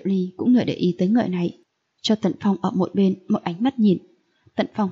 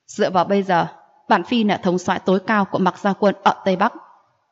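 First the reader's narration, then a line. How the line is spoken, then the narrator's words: Cold laugh. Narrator (Vietnamese): Diệp Ly lạnh lùng cười một tiếng nói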